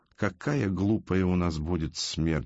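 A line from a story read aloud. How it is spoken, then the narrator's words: Low, hushed voice. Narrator (Russian): сказал вполголоса Арсению Амброджо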